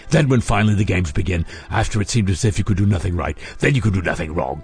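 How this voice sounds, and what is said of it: Mock Dick Van Dyke cockney accent. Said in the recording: “In a Dick Van Dyke accent, for some reason.”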